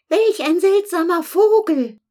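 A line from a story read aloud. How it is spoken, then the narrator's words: Ants screaming. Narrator (German): Die Ameisen schrien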